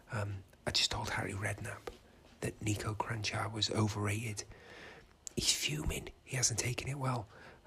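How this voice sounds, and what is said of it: Quiet whispering. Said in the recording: “I'm having a whisper and be quiet because I'm hiding in a wardrobe”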